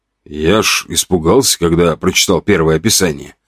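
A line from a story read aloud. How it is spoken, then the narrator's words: Quiet. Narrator (Russian): тихо сказал он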